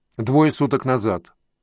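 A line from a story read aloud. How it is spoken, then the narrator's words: Plain. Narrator (Russian): ответил следователь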